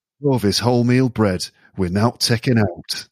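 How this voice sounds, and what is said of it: Good put-on Yorkshire accent. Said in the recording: “you sound good with a Yorkshire accent.”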